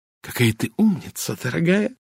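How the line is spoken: Whisper. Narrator (Russian): прошептала леди Энкейтл

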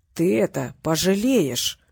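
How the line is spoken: Hesitant mutter. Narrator (Russian): нерешительно пробормотал один из быков

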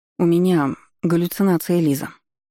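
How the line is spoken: Perfectly calm. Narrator (Russian): совершенно спокойно произнесла она

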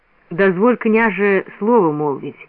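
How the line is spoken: Muffled, somber request. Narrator (Russian): глухо попросил он

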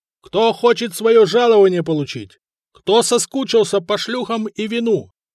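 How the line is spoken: Yelling. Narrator (Russian): орал Артемий

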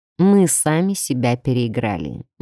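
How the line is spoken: Gloomy male reply. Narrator (Russian): мрачно отозвался мужчина

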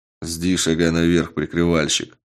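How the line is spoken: Grunted. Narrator (Russian): буркнул на это Карат

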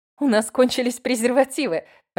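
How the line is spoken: Laughing. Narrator (Russian): рассмеялась я

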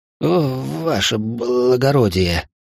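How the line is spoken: Forced-out words. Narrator (Russian): выдавил бандит

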